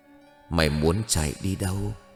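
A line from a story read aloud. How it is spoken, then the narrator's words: Soft whisper. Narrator (Vietnamese): khẽ thì thầm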